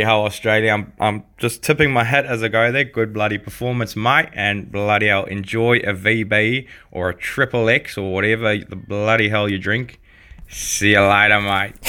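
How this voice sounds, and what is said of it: Broad put-on Australian accent. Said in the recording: “a quite impressive, if somewhat broad, interpretation of an Australian accent. Very, very good ... Australian accent”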